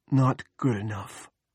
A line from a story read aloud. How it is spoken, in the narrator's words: Andy whispered